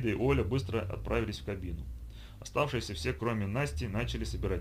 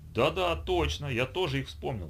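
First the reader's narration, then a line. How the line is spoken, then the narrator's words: Joyful exclamation. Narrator (Russian): радостно воскликнул Сергей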